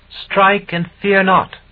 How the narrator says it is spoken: She spoke again from the floor at my feet, and her voice seemed to ring in my ears

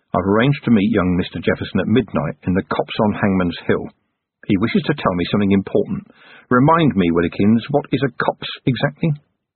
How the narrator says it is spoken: Under his breath, Vimes said

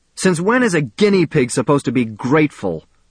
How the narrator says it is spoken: shouted

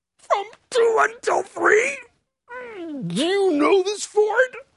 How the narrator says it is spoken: In a strangled voice repeats

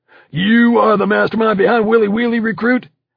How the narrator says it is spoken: Ruiz suddenly lunged forward directly into my face and bellowed

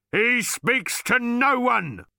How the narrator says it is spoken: bellowed the bodyguard

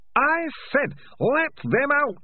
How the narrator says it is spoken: screamed Hammond Pork

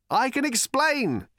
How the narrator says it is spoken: shouted Arthur

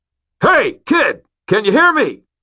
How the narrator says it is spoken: I cupped my hands over my mouth and shouted

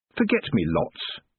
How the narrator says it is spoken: said Tiffany, more sharply than she'd intended

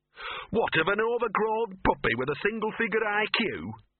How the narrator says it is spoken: sneered Gaspode

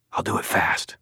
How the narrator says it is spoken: I said

